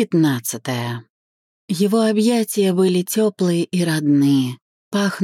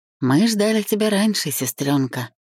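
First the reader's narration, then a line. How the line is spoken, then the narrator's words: Hoarse whisper. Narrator (Russian): прошептал хрипловато, словно долго не говорил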